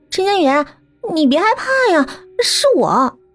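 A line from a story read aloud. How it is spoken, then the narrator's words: Pitiful voice. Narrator (Chinese): 那个白色的人影也坐了起来，并且发出了可怜兮兮的声音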